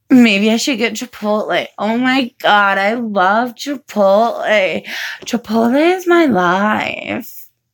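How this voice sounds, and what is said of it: Odd voice, sounds like getting sick. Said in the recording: “my voice sounds weird. Sounds like I'm getting sick, but I'm not. It's just weird today.”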